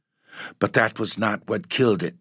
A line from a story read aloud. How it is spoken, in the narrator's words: said Dorothy